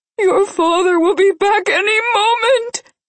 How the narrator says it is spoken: she wailed

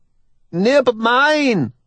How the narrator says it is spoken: he shouts gleefully

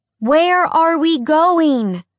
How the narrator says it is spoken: Alex yelled over the wind

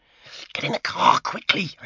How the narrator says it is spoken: hissed

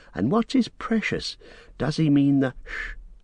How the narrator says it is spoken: breathed Frodo

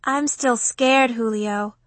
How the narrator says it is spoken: Romy murmured

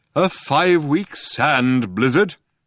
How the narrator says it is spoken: said Deep Thought haughtily

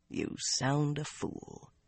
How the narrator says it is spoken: he muttered to himself

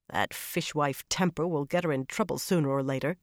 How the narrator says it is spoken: Suan muttered

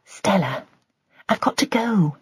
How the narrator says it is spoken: Joy whispered

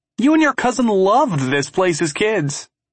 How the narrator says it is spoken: he yells up

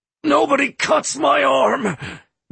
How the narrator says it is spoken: Drake rasped

